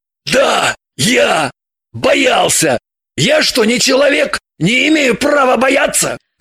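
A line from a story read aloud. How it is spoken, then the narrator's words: Barking. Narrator (Russian): рявкнул Шульгин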